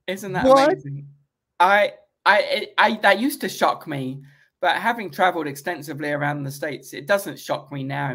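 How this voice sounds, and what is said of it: British accent. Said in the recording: “I'm just this fascinating British guy. Because, you know, they've never heard the accent.”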